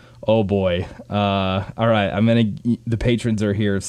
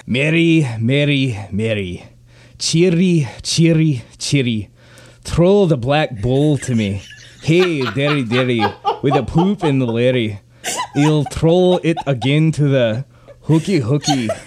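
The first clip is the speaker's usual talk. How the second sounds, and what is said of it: Put-on Scottish accent. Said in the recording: “Can you read this in a Scottish accent, please?”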